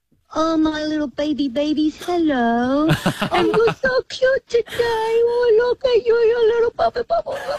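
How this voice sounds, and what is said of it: Baby voice. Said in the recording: “talk to us in a baby voice”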